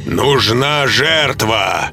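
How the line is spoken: Loud. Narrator (Russian): громко произнес он

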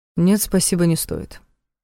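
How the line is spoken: Cold reply. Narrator (Russian): холодно ответил Кирилл

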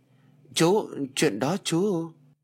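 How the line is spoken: Nervous stammer. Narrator (Vietnamese): Chú Trường chột dạ lắp bắp

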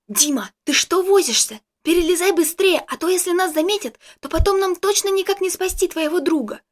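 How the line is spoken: Loud hissed whisper. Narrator (Russian): Громким шепотом прошипела мне Джессика

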